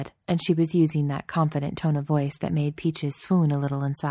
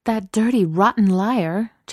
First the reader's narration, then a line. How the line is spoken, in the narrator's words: Chelsea exclaimed